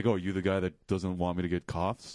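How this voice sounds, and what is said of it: Imitates another person's voice. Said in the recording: “good Bill Young impression ... It was amazing. ... On the gamut, on the continuum between any other voice in the world and Bill Young's voice, I'd say you hit at least 60% of the way there.”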